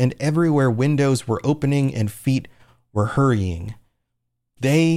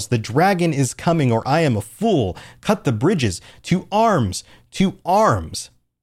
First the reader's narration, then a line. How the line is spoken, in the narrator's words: He yells